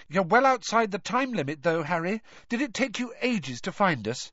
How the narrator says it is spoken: Hermione impatiently and said

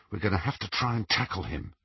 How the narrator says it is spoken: he whispered to Ron

